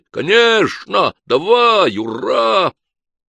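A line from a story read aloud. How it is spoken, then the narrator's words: Crowd yelling. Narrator (Russian): все заорали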